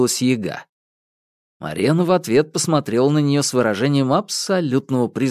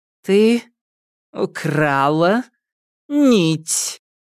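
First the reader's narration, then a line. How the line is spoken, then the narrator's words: Word-by-word barely restrained rage. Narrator (Russian): по слову процедила Марена, еле сдерживая ярость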